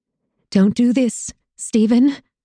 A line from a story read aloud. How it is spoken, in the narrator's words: I pleaded, my voice quivering